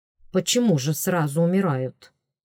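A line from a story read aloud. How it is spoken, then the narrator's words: Offended. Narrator (Russian): обиженно проговорил Делаэрт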